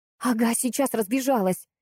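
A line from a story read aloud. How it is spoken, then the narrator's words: Breathed out. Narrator (Russian): выдохнула я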